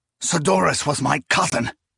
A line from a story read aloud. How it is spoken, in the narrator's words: Proyas snapped